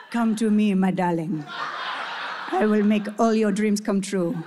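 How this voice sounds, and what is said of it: Put-on romantic Latino accent. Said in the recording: “the language of love. It should be easier for you with that accent.”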